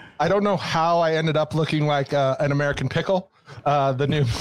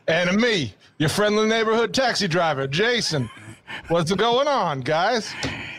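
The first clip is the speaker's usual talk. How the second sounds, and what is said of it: Put-on New York accent. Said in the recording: “That is my accent for being in New York.”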